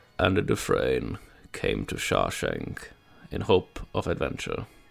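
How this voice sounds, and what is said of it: Deep narrator voice impression. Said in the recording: “do a Morgan Freeman impression ... I'm gonna try ... Yeah, that's pretty good.”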